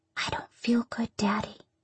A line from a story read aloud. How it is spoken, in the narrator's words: whisper